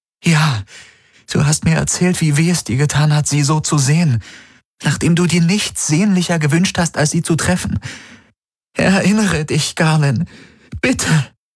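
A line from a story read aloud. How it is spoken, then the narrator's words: Pleading. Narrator (German): flehte sie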